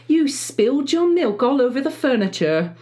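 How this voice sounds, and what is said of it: Put-on British accent. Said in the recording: “I went in a British accent”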